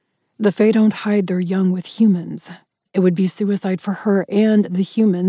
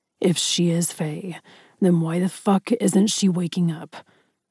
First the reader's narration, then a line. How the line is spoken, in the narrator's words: Ryder growled, low in his throat